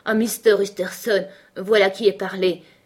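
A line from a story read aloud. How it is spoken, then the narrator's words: Exclaimed, butler. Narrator (French): s'écria le maître d'hôtel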